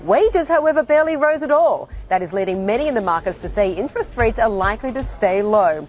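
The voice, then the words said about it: Australian accent. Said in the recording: “She comes to the United States from Australia, and the accent is very clever”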